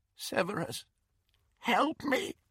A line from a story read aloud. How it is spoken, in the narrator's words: the woman said, in a cracked and terrified voice